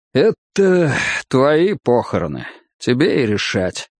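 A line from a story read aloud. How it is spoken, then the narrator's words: Sigh, plain. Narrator (Russian): лишь вздохнул и просто сказал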